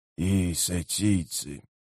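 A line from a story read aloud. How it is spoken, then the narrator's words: Grumbled. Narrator (Russian): буркнул Леоман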